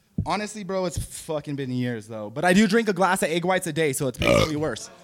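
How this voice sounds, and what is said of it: Strong New Mexico accent. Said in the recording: “New Mexico accent was that strong ... whiten up your accent ... I didn't know it was that deep”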